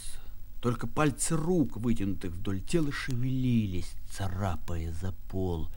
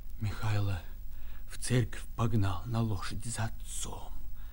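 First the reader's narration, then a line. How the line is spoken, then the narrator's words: Whispering. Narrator (Russian): шептал дядя Яков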